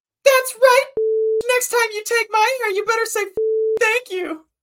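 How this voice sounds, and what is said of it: Sassy unicorn character voice. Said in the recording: “your unicorn impression ... super sassily”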